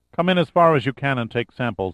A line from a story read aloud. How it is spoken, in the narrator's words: Mendoza answered